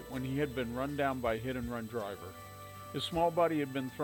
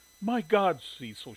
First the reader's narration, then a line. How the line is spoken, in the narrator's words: she exclaimed